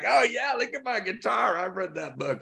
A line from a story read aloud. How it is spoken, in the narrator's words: She started yelling like